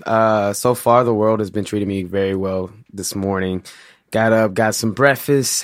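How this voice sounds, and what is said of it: St. Louis accent. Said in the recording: “my St. Louis accent, I say breakfast. I can't say breakfast.”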